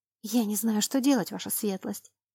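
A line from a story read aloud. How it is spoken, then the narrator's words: Mumbling, near tears. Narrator (Russian): чуть не плача пробормотала она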